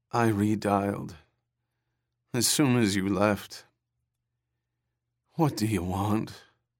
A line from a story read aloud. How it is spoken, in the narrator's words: Her voice sank into a dreary drone of despond